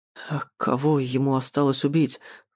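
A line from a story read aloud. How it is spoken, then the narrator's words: Trembling voice question. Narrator (Russian): дрожащим голосом спрашиваю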